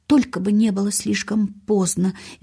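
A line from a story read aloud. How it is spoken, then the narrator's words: Guilty mutter. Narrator (Russian): виновато бормотал мистер Крэвин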